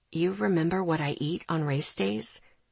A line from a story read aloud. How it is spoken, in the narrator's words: He asked quietly